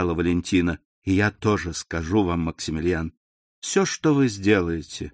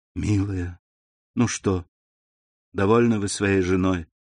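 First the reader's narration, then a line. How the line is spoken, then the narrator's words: Sad young woman. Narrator (Russian): грустно сказала девушка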